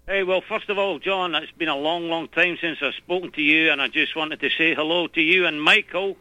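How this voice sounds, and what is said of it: Scottish accent. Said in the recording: “Scottish ... that accent rings a bell”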